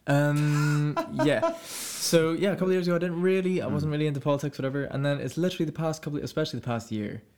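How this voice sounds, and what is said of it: Zimbabwean accent. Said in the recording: “He's from Zimbabwe. ... If you can't tell by the accent.”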